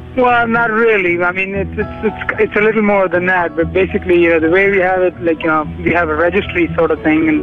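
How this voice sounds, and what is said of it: Foreign accent. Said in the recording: “Obviously, that was kind of a dead giveaway there ... you probably made out from the accent”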